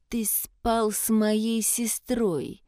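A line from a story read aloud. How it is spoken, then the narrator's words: Through gritted teeth. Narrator (Russian): процедил Гас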